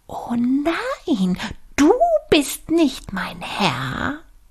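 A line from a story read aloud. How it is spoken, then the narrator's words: Cried out. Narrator (German): schrie er auf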